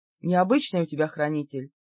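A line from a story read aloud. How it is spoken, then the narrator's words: Sudden amused snort. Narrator (Russian): неожиданно хмыкнул Лик-Хеол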